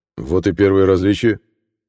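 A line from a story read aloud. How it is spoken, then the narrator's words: Snorting. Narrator (Russian): хмыкнул Карл Генрихович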